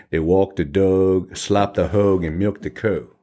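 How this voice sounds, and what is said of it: Put-on rural Virginia country accent. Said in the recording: “That's a funny county down there in Virginia, though. It's a funny accent. They talk kind of plantation. ... country. ... Got that down pat.”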